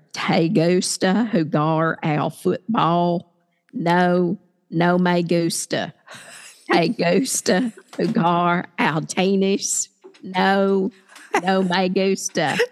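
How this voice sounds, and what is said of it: Deep Southern accent. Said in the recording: “was from Milan, Tennessee. And she had a very deep Southern accent.”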